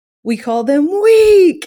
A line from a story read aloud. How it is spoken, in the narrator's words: yells it out differently than he would normally sing it, because he just gives it everything